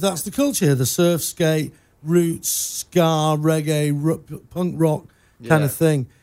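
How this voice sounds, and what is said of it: Non-local accent. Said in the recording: “I'm not actually from these parts. I don't know if you can tell by my accent”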